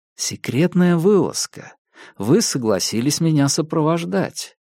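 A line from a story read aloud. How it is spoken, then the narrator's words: Soft gentle voice. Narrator (Russian): мягко промолвил я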